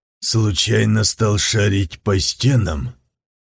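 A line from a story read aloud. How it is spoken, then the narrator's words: Deep purring turned icy. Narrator (Russian): Густой, мурлыкающий голос Лаума сделался ледяным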